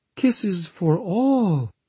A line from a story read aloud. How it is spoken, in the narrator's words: exclaimed Sister Michella with such fervent enthusiasm